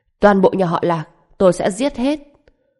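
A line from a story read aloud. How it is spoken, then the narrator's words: Murderous loud shout. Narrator (Vietnamese): trong mắt lóe lên sát khí ngập trời, hét lớn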